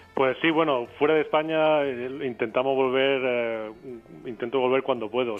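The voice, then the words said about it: Spanish Andalusian Granada accent. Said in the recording (Spanish): “tienes un acento que no te pega nada de San Francisco, a lo menos eres de Granada.”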